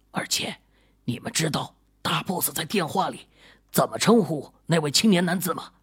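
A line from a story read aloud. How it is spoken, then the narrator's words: Lowered voice. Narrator (Chinese): 被称为李哥的警察压低了声音，又说了一句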